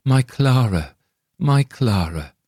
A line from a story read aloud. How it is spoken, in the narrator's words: He was so overcome with mingled feelings of sorrow and delight, and he gasped forth